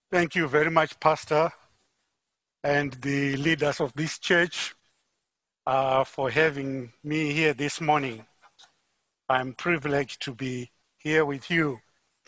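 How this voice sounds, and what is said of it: Zimbabwean accent. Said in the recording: “As you can tell from my accent, I'm not from Muskogee, Oklahoma. ... I'm from Harare, Zimbabwe.”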